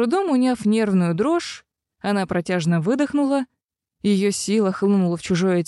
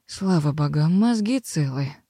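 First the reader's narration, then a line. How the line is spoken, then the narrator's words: Relieved exhale. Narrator (Russian): выдохнула она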